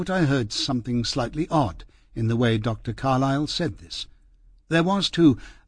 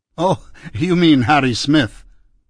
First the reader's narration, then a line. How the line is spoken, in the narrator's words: the doctor said with a laugh